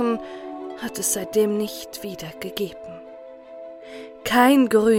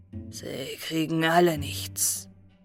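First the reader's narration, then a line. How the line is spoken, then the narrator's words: Murmured. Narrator (German): murmelte er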